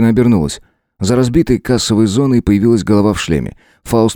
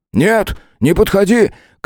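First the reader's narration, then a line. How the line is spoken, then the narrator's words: Big man shouting. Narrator (Russian): крикнул Кларк, здоровяк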